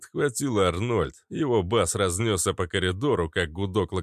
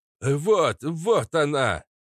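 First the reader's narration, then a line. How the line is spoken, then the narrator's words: Excited shout. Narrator (Russian): крикнул папаша Кац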